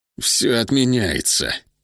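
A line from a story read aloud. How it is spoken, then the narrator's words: Growled. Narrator (Russian): прорычал Хьюго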